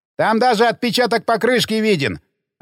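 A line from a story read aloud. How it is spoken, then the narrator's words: Excited shout from behind. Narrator (Russian): азартно крикнул сзади Хэнк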